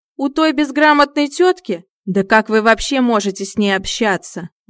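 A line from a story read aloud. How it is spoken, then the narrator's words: Shrill, carrying squeal. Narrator (Russian): Голос Бориса истончился до визга и легко донесся до ушей соседки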